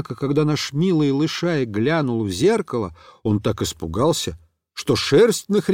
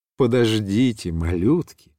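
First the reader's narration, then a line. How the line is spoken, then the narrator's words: Plain. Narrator (Russian): сказал ангелочком святой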